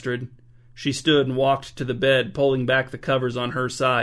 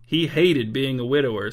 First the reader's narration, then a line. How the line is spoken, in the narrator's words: said King Lon with a wry chuckle